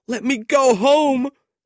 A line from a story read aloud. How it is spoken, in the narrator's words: Smike cried